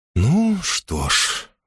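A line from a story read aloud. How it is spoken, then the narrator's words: Sighing. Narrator (Russian): вздохнула она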